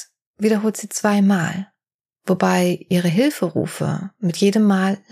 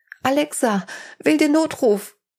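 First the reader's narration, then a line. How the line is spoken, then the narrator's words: Scream. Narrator (German): Dann schreit sie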